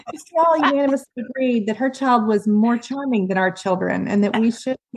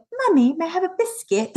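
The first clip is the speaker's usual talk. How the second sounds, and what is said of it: Fair impression of British child's accent. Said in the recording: “That was a fair impression ... impressed by their requests for biscuits because of the accent”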